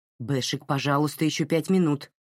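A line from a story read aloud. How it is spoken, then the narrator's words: Irritated reply. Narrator (Russian): раздраженно ответила Марин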